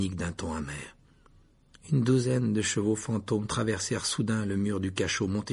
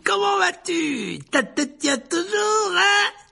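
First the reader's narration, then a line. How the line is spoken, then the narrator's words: Roaring. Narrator (French): rugit-il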